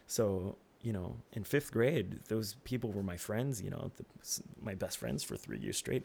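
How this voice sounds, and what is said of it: French accent. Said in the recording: “see what I said about the French accent?”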